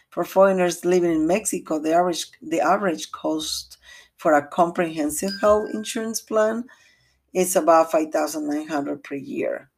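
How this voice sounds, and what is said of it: Non-native English accent. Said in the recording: “excuse my accent”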